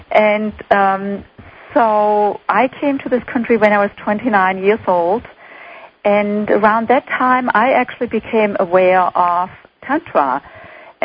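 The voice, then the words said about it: German accent. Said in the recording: “I grew up in Germany, as probably most of your listeners can detect by my accent.”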